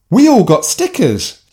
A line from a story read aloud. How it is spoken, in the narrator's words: Sophie shouted just as happily